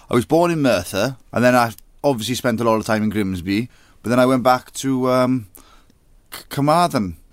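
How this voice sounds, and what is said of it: Welsh accent. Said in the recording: “Is that a good Welsh accent? Well, it sounds good to me ... It's a proper Welsh accent”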